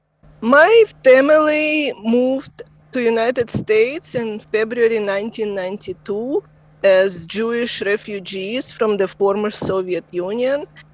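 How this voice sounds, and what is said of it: Non-native English accent. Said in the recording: “second generation accent speakers”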